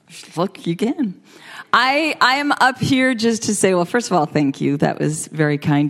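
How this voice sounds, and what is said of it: Speaks with a noticeable accent. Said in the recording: “you guys would like my accent better”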